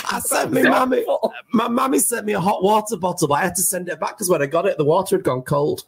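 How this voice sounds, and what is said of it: Imitating the other speaker's accent. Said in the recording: “This is my accent. ... It is your accent.”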